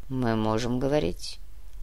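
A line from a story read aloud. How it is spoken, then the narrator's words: Very quiet question. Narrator (Russian): очень тихо спросил Нур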